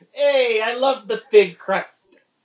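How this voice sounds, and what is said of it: Put-on New York accent, sounds Chicago. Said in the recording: “this is my New York accent. Don't pay attention that it's a Chicago.”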